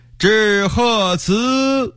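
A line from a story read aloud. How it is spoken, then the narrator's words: Loud ceremonial chant. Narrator (Chinese): 赞礼官又高声唱道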